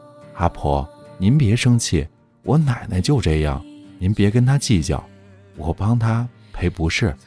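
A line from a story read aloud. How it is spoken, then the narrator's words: Quiet, embarrassed. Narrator (Chinese): 涨红了脸，低头小声说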